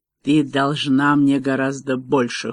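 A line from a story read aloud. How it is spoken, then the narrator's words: Cold. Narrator (Russian): холодно сказал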